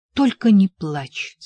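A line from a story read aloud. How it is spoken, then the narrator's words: Sharp. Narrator (Russian): сказал я резко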